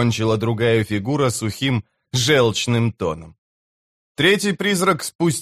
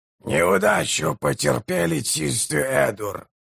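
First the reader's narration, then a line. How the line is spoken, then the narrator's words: Hoarse proclamation. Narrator (Russian): хрипло провозгласил он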